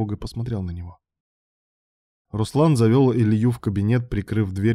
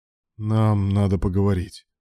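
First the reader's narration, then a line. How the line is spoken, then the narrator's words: Dull lifeless voice. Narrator (Russian): потухшим голосом произнес Руслан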